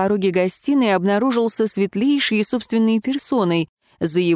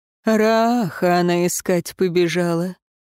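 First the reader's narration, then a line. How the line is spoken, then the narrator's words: Grumbling. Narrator (Russian): проворчал Светлейший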